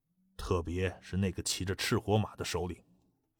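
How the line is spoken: Lowered voice. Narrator (Chinese): 藤永香压低声音

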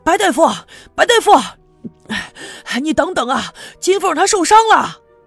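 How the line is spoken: Loud, shouted while running. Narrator (Chinese): 一边飞快的跑，一边大声的冲他喊

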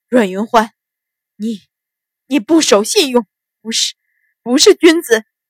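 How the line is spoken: Trembling with pain. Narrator (Chinese): 几十枚银针顿时透体而入，秦鹏啊的一声大叫，几乎晕了过去，颤声道

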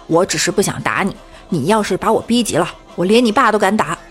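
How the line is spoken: Angry. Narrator (Chinese): 李大脚跟一朋友吵架，吵得不可开交，他怒道

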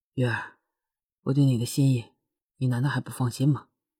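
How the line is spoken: Hoarse, tender murmur. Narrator (Chinese): 深情的，沙哑的声音呢喃着

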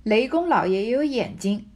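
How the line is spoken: Angry cold sneer. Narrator (Chinese): 小婵气得怔怔的，瞅着冷笑道

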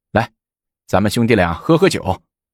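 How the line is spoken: Stops laughing, speaks. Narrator (Chinese): 来俊臣止住笑，说

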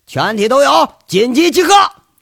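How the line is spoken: Booming shout. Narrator (Chinese): 一嗓子中气十足喊了一声

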